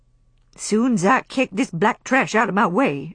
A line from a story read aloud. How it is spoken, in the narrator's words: answered Mammy, loudly